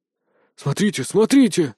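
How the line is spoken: Delighted exclamation. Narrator (Russian): восхищенно воскликнул профессор Пушок

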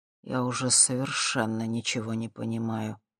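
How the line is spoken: Low-voiced admission. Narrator (Russian): вполголоса признался он

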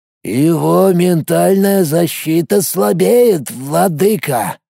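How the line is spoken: Creaky voice. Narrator (Russian): проскрипел тот, что лежал на земле

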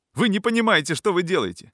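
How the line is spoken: Breathless shouting, sick man. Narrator (Russian): кричал больной, задыхаясь

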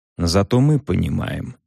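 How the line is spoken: Soft. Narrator (Russian): сказал он мягко

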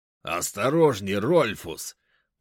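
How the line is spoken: Orc growl. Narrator (Russian): прорычал краснокожий орк

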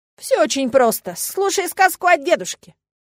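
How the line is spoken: Snorting. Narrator (Russian): Эллен хмыкнула

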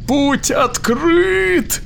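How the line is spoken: Triumphant squeal. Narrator (Russian): победно завизжал Дил

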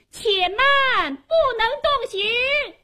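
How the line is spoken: Woman shouting loudly. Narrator (Chinese): 忽听有个女子高声喊道

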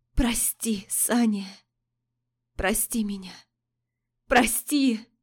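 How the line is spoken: Hoarse, self-loathing. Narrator (Russian): Оскалившись от презрения к себе, женщина прохрипела

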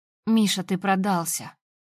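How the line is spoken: Weary. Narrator (Russian): Устало соглашаюсь я

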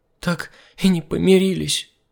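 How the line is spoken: Sobbing. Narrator (Russian): всхлипнула Марина

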